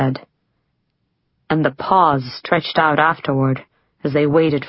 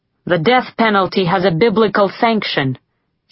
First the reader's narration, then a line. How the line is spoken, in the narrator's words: said Boathwaite